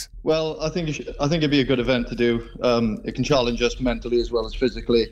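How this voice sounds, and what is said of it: South Welsh accent. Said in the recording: “I can detect your accent ... you sound more South Wales than North Wales.”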